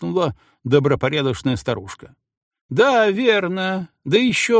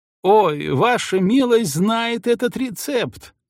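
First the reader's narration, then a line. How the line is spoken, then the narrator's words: Old woman's cackling cry. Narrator (Russian): громко хихикая, вскричала старуха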